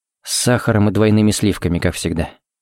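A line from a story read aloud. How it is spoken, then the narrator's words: Quiet. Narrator (Russian): сказал тихо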